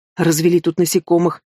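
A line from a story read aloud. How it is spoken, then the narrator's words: Grumbling fairy. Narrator (Russian): буркнула фея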